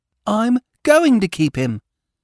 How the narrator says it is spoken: corrected Peter firmly

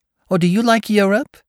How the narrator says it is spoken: she exclaimed surprisingly

